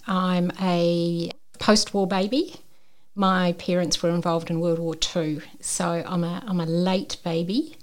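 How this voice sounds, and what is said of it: New Zealand accent. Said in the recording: “I'm a Kiwi, as you can probably tell by the accent.”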